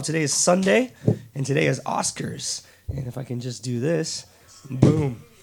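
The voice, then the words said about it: Raspy, hoarse voice. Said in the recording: “my terrible raspy voice ... I just lost my voice”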